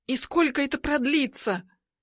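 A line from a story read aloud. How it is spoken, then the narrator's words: Barely audible, quickened breathing. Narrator (Russian): Еле слышно спрашиваю, а у самой дыхание учащается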